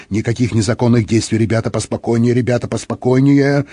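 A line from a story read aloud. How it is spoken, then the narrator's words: Muttering. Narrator (Russian): Сержант Хиггинс бормотал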